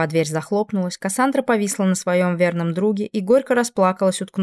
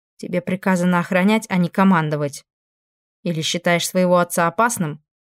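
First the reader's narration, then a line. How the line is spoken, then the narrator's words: Snorting. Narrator (Russian): Фрейно хмыкнул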